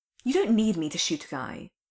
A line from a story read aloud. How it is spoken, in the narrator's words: Clint snapped